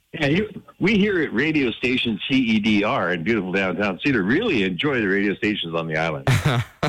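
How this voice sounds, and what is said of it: Radio announcer voice. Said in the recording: “You got a good radio voice”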